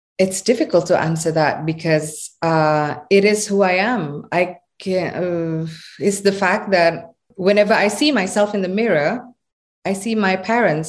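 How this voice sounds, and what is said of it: Indonesian accent. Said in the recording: “I hear my accent. And what makes me Indonesian”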